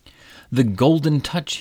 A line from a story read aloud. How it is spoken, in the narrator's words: he exclaimed